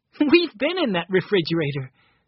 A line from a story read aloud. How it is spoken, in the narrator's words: said Benny, laughing